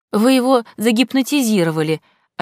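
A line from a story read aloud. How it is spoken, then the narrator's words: Accusing tone. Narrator (Russian): обвиняющим тоном заявила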